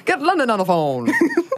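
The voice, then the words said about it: Put-on transatlantic accent. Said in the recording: “transatlantic ... I'm pretty good at it ... it's perfect ... that impression”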